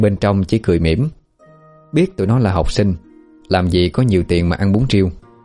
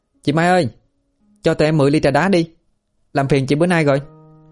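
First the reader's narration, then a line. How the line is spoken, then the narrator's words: Loud shout. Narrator (Vietnamese): Một đứa hét lớn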